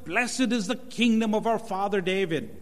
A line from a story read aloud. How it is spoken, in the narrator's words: they shouted